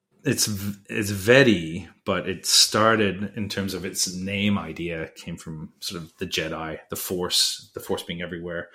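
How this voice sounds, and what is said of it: Canadian accent. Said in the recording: “I've got the Canadian accent”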